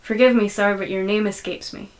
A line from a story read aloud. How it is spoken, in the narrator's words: said Peg